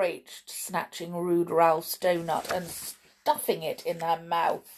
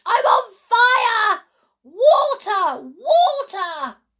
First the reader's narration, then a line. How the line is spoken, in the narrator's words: ran howling